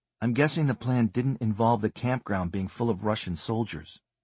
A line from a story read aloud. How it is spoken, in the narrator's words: Keeping his voice barely above a whisper, he said